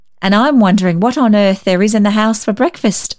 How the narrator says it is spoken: she laughed

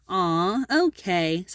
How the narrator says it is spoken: sighed Esther

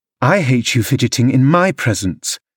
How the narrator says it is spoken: exclaimed the young lady imperiously

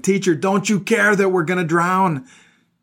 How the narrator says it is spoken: His disciples woke him up shouting

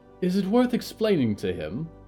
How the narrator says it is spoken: Polly sighed

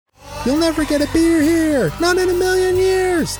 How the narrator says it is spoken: They shouted

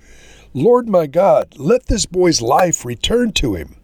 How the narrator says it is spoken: cried out to the Lord

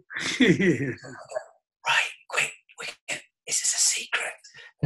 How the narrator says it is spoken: suddenly everybody's whispering

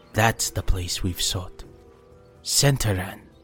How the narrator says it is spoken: said Meineken softly

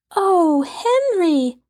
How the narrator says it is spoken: cried Violet and Jess together

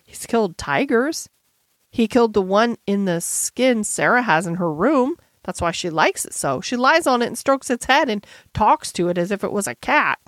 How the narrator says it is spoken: said Jessie slowly

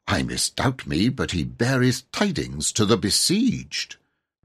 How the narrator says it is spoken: added in a cautious undertone

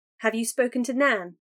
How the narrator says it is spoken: Kiana asked

